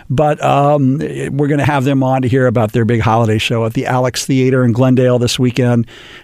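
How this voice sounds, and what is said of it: Deepened voice from a cold. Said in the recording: “as you can hear in my voice, if I don't get rid of this cold that I've got, I'm going to be singing bass instead of my usual tenor”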